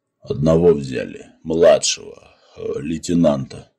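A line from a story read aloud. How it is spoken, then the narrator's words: Almost human voice. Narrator (Russian): полковник сказал почти человеческим голосом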